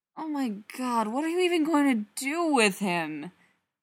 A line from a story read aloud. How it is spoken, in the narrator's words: Spencer groans